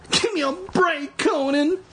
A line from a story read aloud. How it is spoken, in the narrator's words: pleaded